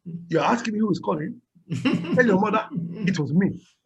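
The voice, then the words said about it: Put-on Nigerian accent. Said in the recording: “when ... does his Nigerian ... good his impersonation and his African accent”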